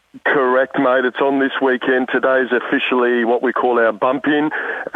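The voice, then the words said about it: Tired, worn-out voice. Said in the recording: “Sorry for my voice. ... I'm a bit still tired”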